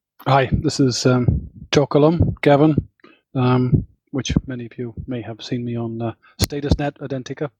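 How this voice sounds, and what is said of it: Northern Irish accent. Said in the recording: “that's my Northern Ireland accent for you.”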